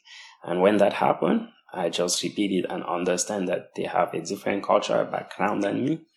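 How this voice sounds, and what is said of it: Non-native accent. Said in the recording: “my student may struggle to understand something due to my accent ... my accent is a barrier between what I said and your understanding”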